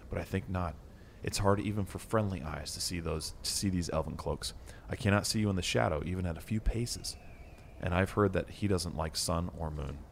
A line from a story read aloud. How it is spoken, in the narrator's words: said Frodo quietly